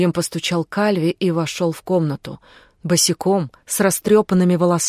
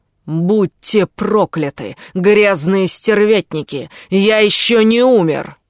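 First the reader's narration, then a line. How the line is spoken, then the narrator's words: Shouting. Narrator (Russian): прокричал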